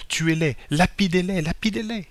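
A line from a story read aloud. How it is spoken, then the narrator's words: Crowd shouting from all sides. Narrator (French): s'écrièrent de toutes parts les chrétiens assemblés dans le temple de Jésus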